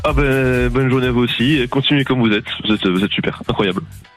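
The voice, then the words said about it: Slight Alsatian French accent. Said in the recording (French): “ce petit accent alsacien”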